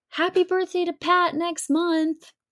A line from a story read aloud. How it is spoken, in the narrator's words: I yell out